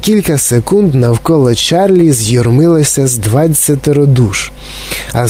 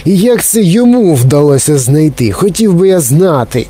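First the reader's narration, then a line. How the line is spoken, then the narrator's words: Angry shouting, heavy boy. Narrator (Ukrainian): сердито загорлав якийсь товстий хлопець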